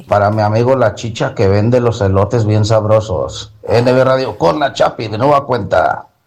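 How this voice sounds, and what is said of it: Radio announcer voice. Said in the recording (Spanish): “tú tienes voz de locutor”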